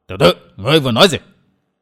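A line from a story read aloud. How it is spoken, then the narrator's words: Shout. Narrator (Vietnamese): Lão quát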